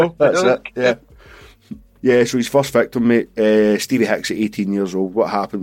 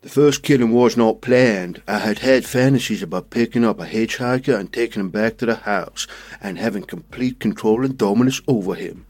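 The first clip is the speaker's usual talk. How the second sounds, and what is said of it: Impression of Jeffrey Dahmer. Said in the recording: “I'm going to do an impression here... that was Jeffrey Dahmer... It did go a bit South Park towards the end”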